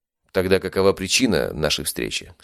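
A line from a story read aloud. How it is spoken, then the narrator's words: Plain. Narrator (Russian): спросил я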